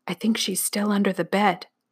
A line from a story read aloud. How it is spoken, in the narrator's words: He whispered